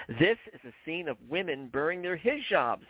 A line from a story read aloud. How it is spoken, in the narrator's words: Hadas shouted out in laughter